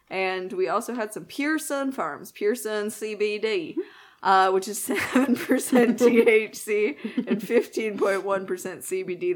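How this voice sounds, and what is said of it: Put-on Southern accent. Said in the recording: “The southern accent was intentional.”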